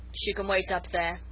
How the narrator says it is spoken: he said with a grunt

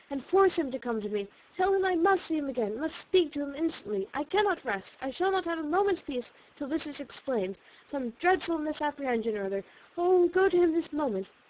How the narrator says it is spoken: cried, as soon as she could speak

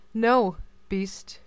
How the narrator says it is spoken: she answered in a very firm tone

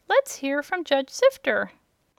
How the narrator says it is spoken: a big kitchen fork pricked up its ears and said in a tiny voice

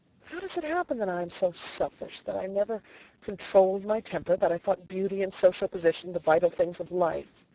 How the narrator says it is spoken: She muttered

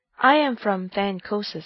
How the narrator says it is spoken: I replied

